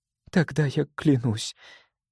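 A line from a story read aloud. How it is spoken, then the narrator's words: Heavy sigh. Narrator (Russian): тяжело вздохнула Элике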